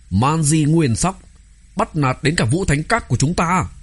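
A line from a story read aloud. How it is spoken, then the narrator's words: Angry group shout. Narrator (Vietnamese): những sĩ tử đó tức giận từ trong lòng, hét lên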